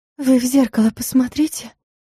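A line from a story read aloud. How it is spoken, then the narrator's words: Muffled whisper. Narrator (Russian): глухим шепотом посоветовала флористка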